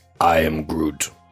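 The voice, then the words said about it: Groot character voice, accurate. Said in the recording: “your best Groot impression ... That's actually pretty bang on.”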